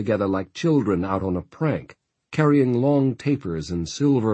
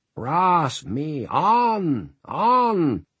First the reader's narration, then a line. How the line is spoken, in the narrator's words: Sister Mary cried in a harsh, powerful voice